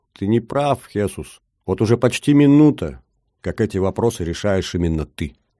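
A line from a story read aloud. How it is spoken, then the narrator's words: Quiet correction. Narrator (Russian): Тристан негромко поправил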